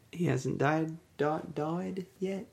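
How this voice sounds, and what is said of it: Put-on English accent. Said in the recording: “I don't know why I went English accent there.”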